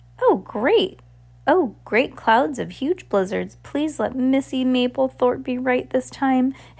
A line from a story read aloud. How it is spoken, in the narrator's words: Henry begged